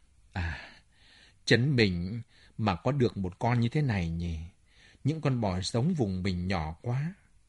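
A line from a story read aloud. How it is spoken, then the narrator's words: Sighing, inner thought. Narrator (Vietnamese): Lagutin thở dài bụng bảo dạ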